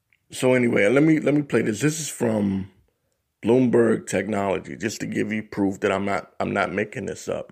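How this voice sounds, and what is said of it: Rough, strained voice. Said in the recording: “excuse my voice. Excuse me. My voice is all messed up today.”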